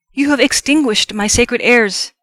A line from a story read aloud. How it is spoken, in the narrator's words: he cried